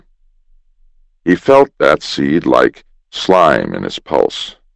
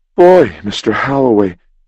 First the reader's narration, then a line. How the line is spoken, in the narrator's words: cried Jim softly